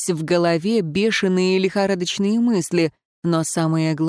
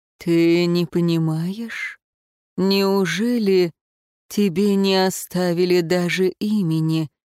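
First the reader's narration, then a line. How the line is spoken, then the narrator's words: Shocked, breathless. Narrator (Russian): потрясенно выдохнул светлейший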